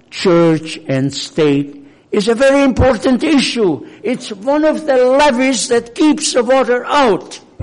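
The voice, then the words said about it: Hungarian accent in English. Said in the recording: “I'm not American by birth, I'm Hungarian. ... you know it by my accent.”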